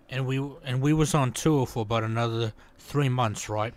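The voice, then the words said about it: Put-on character accent. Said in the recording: “I want to hear ... do the Del Preston accent again”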